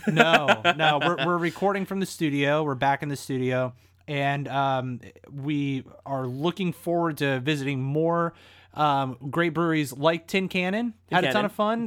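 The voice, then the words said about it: Slightly raspy voice. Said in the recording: “Your voice is a little raspy. ... My voice is a little raspy because I've been singing all evening”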